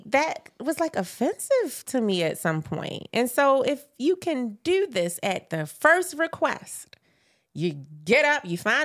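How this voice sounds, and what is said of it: Regional accent. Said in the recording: “As y'all hear these accents, I want y'all to tell where they from”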